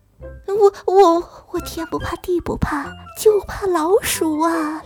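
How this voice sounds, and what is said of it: Quiet, stammering voice. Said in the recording (Chinese): “小声地说”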